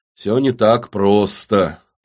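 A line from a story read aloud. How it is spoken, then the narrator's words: Drawling. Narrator (Russian): протянул Кирилл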